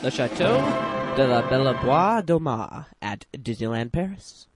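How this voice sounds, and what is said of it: Bad put-on French accent. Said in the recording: “we apologize in advance for the French accent ... Yeah, I'm pretty horrible”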